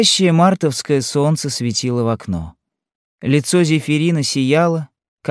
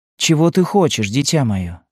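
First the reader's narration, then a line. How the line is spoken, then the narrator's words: Plain question. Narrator (Russian): спросила Елена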